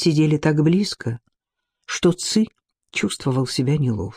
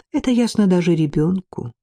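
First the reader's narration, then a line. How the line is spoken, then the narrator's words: Sad, smiling. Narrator (Russian): печально улыбнулся Ци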